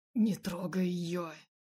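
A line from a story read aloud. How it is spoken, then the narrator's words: Growled. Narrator (Russian): зарычал Эмиль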